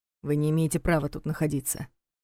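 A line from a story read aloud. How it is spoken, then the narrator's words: Gruff mutter. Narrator (Russian): буркнул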